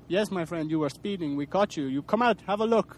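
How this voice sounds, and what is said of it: Put-on African accent. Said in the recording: “I'll do the African.”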